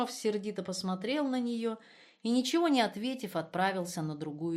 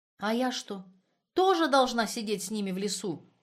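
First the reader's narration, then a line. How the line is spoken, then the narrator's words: Sharp question. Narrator (Russian): резко спросила она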